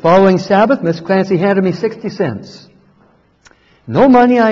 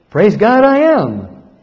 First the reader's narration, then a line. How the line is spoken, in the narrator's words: replied happily